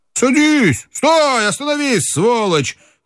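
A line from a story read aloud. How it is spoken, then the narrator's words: Shout. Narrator (Russian): крикнул Теплов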